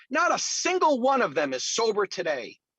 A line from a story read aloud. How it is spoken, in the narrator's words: exclaimed